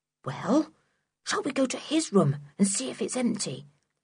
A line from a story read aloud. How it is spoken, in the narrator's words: whispered Sooty